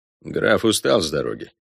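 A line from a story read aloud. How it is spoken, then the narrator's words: Dry. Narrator (Russian): сухо сказал Робер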